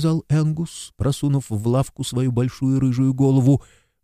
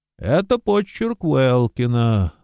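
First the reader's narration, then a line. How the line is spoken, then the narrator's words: Gloomy. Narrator (Russian): мрачно сказал Смайс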